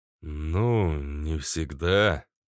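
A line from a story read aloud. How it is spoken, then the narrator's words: Mumbling. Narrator (Russian): промямлил я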